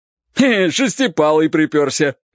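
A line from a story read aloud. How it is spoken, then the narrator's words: Cheerful shout from ahead. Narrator (Russian): весело закричал кто-то впереди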